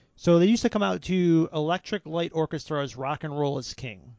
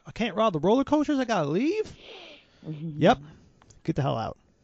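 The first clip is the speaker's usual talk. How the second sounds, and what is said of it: Put-on Charlotte Southern accent. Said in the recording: “Charlotte accent.”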